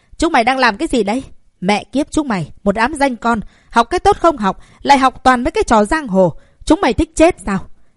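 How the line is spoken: Loud shouting. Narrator (Vietnamese): Sau khi la hét ầm ĩ

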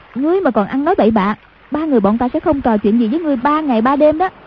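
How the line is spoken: Sharp scolding. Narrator (Vietnamese): Hoàng Dung quát

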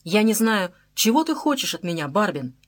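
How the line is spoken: Plain. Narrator (Russian): сказал он

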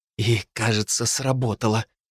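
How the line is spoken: Whisper. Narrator (Russian): прошептала Терри

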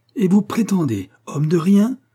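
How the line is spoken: Exclaimed. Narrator (French): s'écria Mrs

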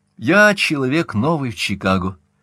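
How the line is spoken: Ingratiating tone. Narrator (Russian): вкрадчиво продолжал Каупервуд

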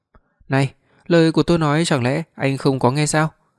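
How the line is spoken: Furious. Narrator (Vietnamese): An An cực kỳ tức giận

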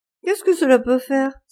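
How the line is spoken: Laughing exclamation. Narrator (French): s'écria Dorian Gray en riant

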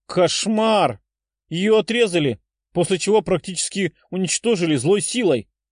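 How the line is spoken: Exclamation. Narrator (Russian): воскликнула Тефа

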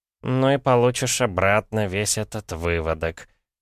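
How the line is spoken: Snorting. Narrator (Russian): хмыкнул шаман

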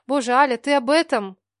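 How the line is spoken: Sighing. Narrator (Russian): вздохнула я

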